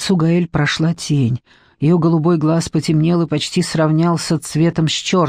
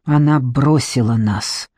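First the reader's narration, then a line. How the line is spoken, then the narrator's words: Gloomy objection. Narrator (Russian): мрачно возразил Филибер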